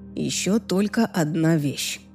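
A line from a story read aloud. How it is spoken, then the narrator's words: Soft. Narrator (Russian): мягко произнес он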